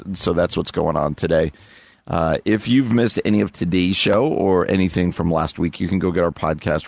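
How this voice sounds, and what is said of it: Weak, slightly sick-sounding voice. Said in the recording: “You might hear it in my voice, too, that I am playing a little hurt today. ... Voice is a little weak”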